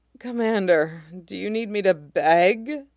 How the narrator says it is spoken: General Fisto rolled his head to the side and looked at Monk, eyes hazy and mouth half open, and moaned out

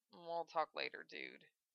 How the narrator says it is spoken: Val actually blushed at the question, then mumbled

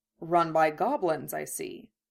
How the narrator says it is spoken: Kurama murmured

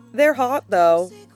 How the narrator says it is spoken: Xiar sighs

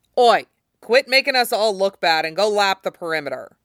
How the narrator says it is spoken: he barks at the cherry

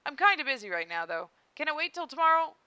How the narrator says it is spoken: broke off, startled

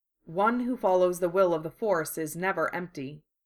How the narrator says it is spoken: the Jedi said firmly

